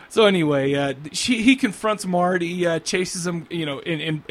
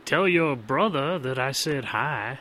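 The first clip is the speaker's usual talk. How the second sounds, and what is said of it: Put-on accent. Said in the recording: “that was an excellent accent.”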